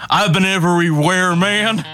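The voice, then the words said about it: Imitates another person's voice. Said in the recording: “my Johnny Cash impression”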